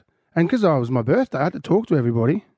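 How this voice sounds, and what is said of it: Hoarse, lost voice from nightclub. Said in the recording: “my voice is still cooked ... my voice is still gone ... you've got to talk over the music, and the music was loud ... My voice is gone.”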